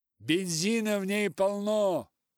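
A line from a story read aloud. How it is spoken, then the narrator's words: Loud. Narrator (Russian): громко сказал Том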